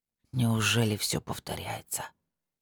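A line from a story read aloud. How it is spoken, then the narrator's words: Quiet whisper. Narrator (Russian): тихо прошептал Года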